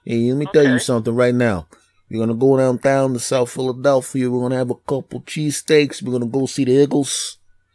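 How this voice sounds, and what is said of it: Put-on South Philadelphia accent. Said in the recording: “that's just the South Philadelphia accent ... That's just their accent in South Philly.”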